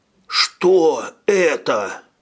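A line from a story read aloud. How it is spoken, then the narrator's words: Hoarse wheeze. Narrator (Russian): прохрипел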